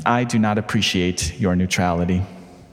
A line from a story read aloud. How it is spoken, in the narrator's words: Desmond sighed